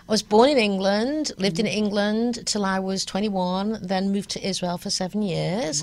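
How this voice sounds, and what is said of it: English accent. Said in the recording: “No, it's an English accent, as you can well tell”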